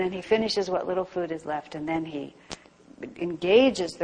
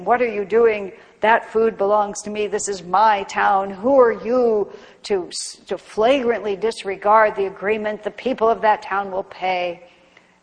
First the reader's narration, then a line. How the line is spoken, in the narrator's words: the Rakshasa bellows out and accuses him